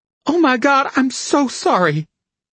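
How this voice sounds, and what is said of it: Stricken, distressed apologetic voice. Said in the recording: “in a stricken voice”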